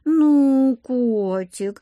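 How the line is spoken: Offended drawl. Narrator (Russian): обиженно протянула Олеся

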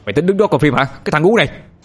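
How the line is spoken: Loud angry yell. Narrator (Vietnamese): Người đó hét lớn

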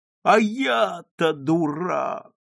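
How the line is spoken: Moaning. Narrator (Russian): стонал другой

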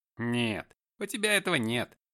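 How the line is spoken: Snorting. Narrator (Russian): хмыкнул Скотт

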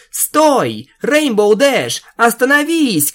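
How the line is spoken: Shout. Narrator (Russian): крикнула хозяйка

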